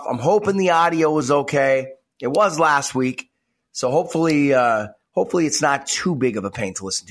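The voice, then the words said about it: Congested, slightly off voice. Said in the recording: “came down with something ... kind of congested and kind of hacking ... my voice sounds a little off”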